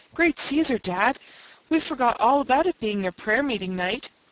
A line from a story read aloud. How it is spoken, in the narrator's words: exclaimed Jerry in dismay